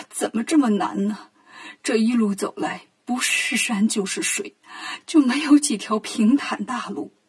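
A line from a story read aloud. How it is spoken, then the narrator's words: Crying. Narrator (Chinese): 唐僧哭着说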